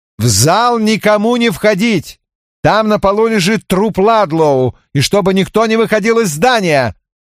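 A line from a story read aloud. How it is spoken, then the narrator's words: Shout. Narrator (Russian): я прокричал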